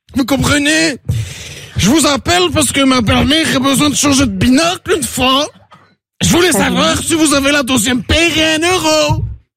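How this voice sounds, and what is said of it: Put-on Belgian French accent. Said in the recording (French): “j'ai le petit accent belge une fois!”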